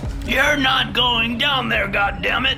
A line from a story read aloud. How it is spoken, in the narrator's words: he shouted